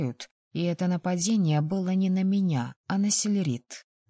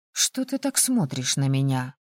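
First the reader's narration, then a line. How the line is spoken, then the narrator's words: Grumbling. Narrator (Russian): проворчала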